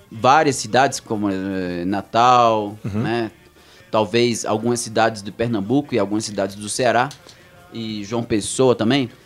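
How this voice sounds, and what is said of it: Brazilian northeastern Portuguese accent. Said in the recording (Portuguese): “o sotaque nordestino é o que eu falo, né? Geralmente, esse é o meu sotaque ... com tanto tempo fora do Brasil ... meu sotaque vai mudando um pouquinho”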